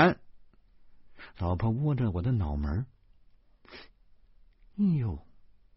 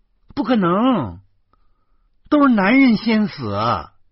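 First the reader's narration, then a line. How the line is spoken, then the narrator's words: Brazen loud shout. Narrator (Chinese): 老婆越发肆无忌惮了，她大声的喊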